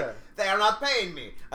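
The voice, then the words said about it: Attempted Spanish accent, sounds French. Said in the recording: “That was not the correct accent for that. Can't do a Spanish accent right now. It's like a French.”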